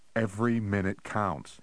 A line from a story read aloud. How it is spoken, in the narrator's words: he said